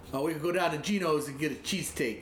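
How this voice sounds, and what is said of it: Poor put-on Philadelphia accent. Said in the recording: “Yeah, my Philly accent sucks.”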